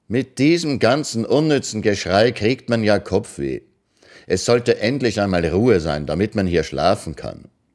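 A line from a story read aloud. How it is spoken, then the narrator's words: Loud, far-carrying, not shouting. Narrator (German): Ekianga, ohne zu rufen, sagte nur laut, aber so, dass man es 5 Hütten weit hören konnte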